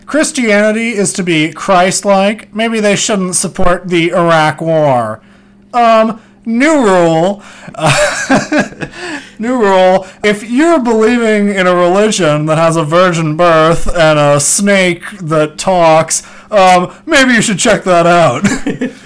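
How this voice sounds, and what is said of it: Imitates another person's voice. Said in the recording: “doing a very clever impression of Bill Maher”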